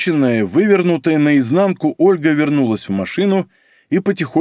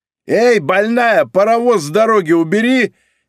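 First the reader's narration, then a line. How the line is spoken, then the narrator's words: Indignant yelling, scrawny man. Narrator (Russian): негодующе орал тощий мужичонка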